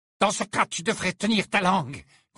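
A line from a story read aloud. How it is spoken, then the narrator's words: Growling. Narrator (French): gronda Bellatrix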